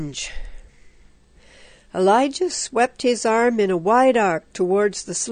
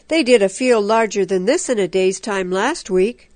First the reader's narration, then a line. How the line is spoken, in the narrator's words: Ichabod Kirsten growled